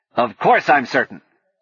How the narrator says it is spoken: Sing snapped

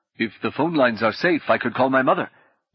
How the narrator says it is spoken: Jeremiah said eagerly

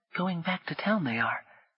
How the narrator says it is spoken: the boy said quietly

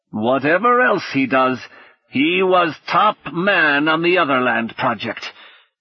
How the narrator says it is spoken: Singh growled

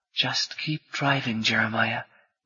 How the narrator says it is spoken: Rini whispered

